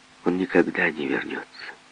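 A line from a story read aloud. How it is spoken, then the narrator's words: Calm, distant address. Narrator (Russian): сказала спокойно, словно обращалась к этому далекому кораблю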